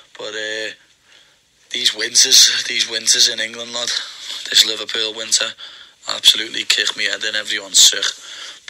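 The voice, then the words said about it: Damaged, strained voice from illness. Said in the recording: “my voice is still in bits”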